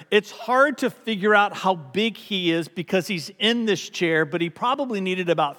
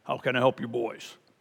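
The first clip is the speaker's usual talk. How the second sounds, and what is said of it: Deep voice. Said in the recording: “we hear this deep voice from the shadows”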